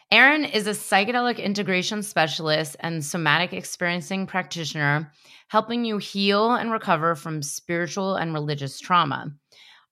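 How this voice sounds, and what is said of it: Hoarse, recovering lost voice. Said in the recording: “please excuse my voice because I've lost it and it's just coming back”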